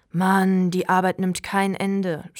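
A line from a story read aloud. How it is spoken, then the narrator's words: Groaning. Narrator (German): stöhnte Torte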